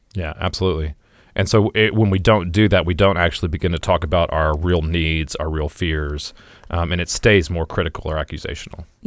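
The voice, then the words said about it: Deeper than usual radio voice. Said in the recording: “You have a great radio voice. ... I have a bit of a chest cold. ... it's a little bit deeper. ... Deeper.”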